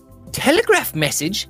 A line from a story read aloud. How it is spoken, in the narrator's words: she cried